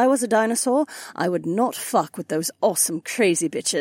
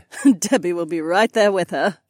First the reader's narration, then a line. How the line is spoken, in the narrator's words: Kat laughed